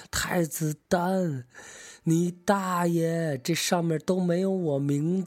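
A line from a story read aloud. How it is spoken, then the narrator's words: Loud shout. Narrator (Chinese): 荆轲忽然清醒了，大声喊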